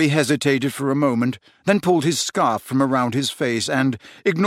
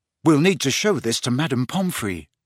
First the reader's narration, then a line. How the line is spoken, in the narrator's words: he said